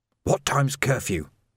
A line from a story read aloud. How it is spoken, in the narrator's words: Vimes whispered